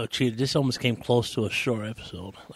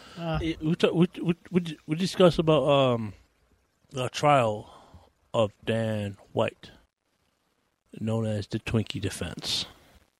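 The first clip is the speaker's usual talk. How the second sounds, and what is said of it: Deep, dramatic voice. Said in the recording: “do that with your voice... Would go deep like... Why'd you make it all dramatic”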